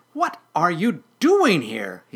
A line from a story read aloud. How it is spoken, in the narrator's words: said angrily